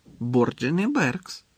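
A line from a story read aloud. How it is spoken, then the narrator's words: Calm repetition. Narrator (Ukrainian): спокійно повторив Дамблдор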